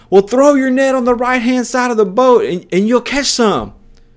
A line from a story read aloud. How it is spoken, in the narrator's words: the guy yells back